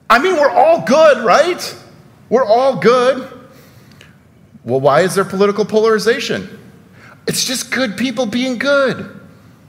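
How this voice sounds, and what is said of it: Mildly sarcastic delivery. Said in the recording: “I'm being sarcastic a little bit.”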